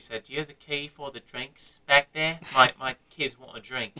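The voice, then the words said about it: Imitated British or Australian accent, weak. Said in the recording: “she was like British or Australian. I'm probably not doing a good accent”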